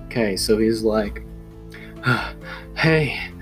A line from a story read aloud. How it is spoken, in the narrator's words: he said kind of breathlessly